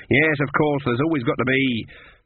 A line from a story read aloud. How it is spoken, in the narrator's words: she spat the words